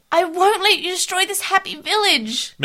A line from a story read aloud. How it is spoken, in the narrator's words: Maisie yelled